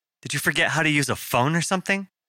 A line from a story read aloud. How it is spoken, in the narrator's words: Nina snapped with a flourish of the accent that she'd inherited from her mother